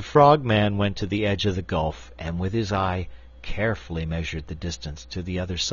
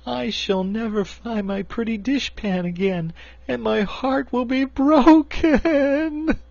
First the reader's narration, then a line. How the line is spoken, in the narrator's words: she sobbed